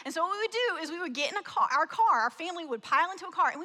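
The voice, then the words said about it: Slight Southern US accent. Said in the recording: “I grew up in the South. Some of you can hear the accent a little bit”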